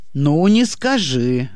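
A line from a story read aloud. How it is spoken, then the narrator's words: Skeptical snort. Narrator (Russian): хмыкнул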